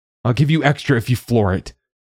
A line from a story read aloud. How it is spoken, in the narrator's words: his voice panicky